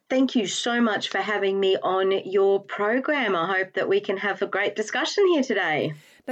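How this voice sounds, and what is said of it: Australian accent. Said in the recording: “your accent clearly isn't a UK accent ... I am actually an Australian”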